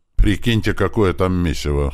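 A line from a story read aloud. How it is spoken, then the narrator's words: Snorting. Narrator (Russian): хмыкнул Слива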